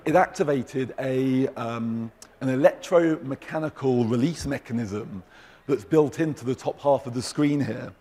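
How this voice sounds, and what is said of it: Hoarse, fading voice. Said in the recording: “excuse me, I'm losing my voice.”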